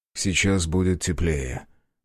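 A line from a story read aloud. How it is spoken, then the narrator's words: Smiling. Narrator (Russian): улыбнулся он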